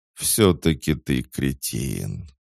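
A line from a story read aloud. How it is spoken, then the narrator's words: Groaning mage. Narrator (Russian): простонал маг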